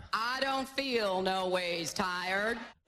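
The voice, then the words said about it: Hillary Clinton's put-on accent. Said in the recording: “Hillary speaking to a black audience in an accent”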